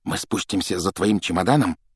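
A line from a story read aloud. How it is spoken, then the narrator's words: Whisper. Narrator (Russian): прошептал Джордж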